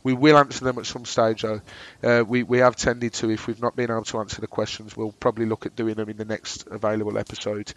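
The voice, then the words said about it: Droning Brummie accent. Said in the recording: “my droning Brummy accent”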